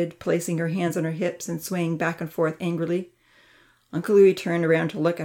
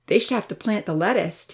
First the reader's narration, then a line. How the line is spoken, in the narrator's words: Tina called out